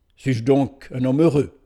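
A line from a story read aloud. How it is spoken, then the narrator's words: Surprised exclamation. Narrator (French): s'écria-t-il d'un ton surpris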